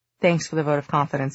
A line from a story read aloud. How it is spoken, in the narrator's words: Julian said dryly